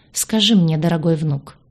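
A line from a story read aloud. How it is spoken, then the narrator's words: Grandmother's insinuating voice. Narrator (Russian): вкрадчиво заговорила бабушка Князева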